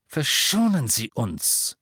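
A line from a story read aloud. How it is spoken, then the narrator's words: Hissing. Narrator (German): zischte Yorksley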